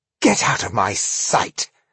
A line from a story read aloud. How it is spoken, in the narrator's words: hissed Elias